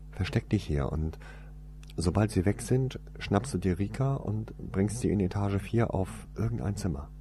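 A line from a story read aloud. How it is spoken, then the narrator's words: Quiet whisper. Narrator (German): flüsterte Tarsoin leise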